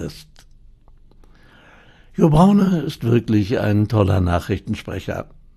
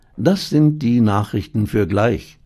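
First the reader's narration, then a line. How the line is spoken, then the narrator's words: Plain. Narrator (German): sagt sie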